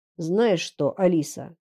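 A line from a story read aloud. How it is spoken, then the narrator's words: Quiet, clipped, icy words. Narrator (Russian): Он говорил тихо, но каждое слово было отчеканено и летело в нее, как ледяная пуля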